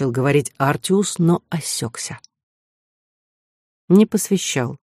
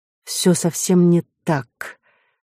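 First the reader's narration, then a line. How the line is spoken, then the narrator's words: Forced out reluctantly. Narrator (Russian): наконец выдавил он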